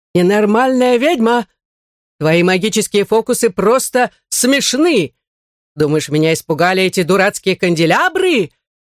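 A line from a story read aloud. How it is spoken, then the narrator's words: Yelling. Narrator (Russian): вопил маркиз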